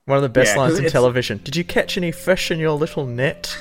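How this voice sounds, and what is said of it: Put-on New Zealand accent. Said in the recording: “I love it when you speak in that Kiwi accent. It's so good. ... It's very authentic. ... South Island.”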